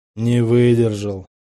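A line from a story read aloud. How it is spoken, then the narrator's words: Gloomy. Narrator (Russian): мрачно говорит командир Аскольда Громадчиков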